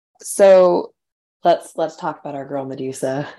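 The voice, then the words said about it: Very deep voice. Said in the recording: “That was a very deep voice.”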